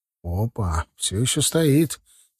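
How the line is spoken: Quiet. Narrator (Russian): тихо сказал я

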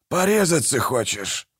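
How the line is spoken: Menacing hiss. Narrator (Russian): прошипел Манфред

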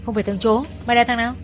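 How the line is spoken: Several men shouting. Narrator (Vietnamese): vài thằng quát

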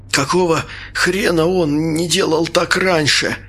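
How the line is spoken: Coughing, forced out. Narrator (Russian): кашляя выдавил я

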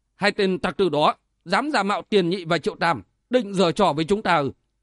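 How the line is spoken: Harsh, clipped. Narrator (Vietnamese): Trác Thất gằn giọng nói

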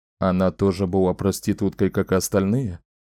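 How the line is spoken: Plain. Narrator (Russian): спросил Дрефон

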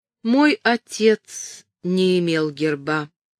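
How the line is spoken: Slow answer. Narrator (Russian): медленно ответила она

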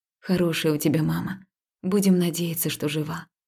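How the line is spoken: Quiet. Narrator (Russian): тихо произнесла я

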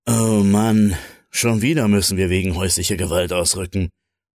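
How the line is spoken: Groaning. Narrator (German): stöhnte Diego

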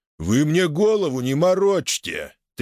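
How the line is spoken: Guard's booming drone. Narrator (Russian): прогудел охранник

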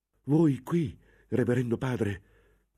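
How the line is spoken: Confused novice exclaiming. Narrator (Italian): esclamò il novizio tutto confuso

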